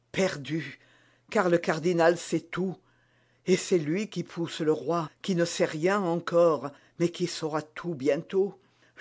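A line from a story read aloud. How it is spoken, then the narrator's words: Murmuring queen. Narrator (French): murmura la reine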